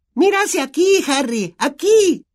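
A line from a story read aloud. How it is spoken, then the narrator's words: Shrieking. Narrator (Spanish): chilló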